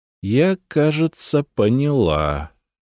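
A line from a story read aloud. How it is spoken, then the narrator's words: Amazed drawl, noblewoman. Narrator (Russian): протянула боярыня в изумлении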